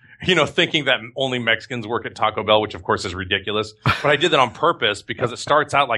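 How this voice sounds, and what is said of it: Usual voice. Nothing is said of it.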